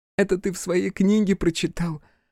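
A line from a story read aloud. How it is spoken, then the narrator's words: Laughing. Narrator (Russian): рассмеялась Игураси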